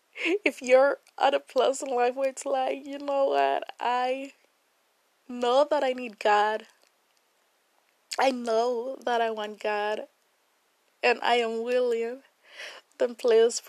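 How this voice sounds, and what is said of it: Emotional, choked-up voice. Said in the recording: “I'm getting emotional, oh my God”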